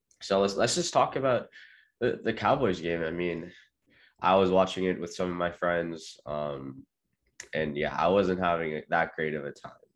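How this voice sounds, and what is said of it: Slightly raspy voice. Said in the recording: “apologize for my voice being a little bit raspy. I'm not feeling 100%”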